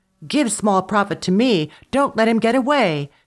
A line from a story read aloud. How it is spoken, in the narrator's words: cried the older brother